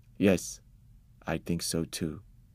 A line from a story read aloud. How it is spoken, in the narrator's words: Father said quietly